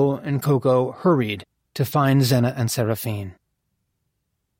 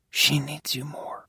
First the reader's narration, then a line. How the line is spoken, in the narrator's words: Coco murmured